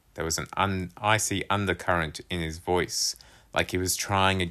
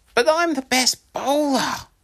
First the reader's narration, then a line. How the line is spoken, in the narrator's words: Stephen exclaimed